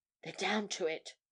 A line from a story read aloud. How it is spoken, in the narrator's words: whispered Breton